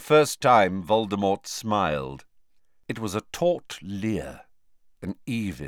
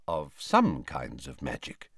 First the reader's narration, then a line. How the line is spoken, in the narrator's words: Dumbledore corrected him quietly